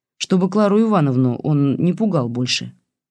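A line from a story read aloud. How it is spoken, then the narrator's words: Uncertain, bearded man. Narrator (Russian): неуверенно предложил бородач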